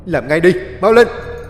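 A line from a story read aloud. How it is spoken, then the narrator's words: Shouting. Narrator (Vietnamese): chú Út la lên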